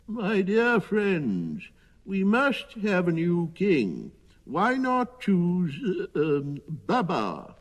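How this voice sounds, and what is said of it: Quavering old man's voice. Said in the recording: “in his quavering voice”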